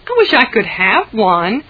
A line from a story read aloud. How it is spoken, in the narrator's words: Jane exclaimed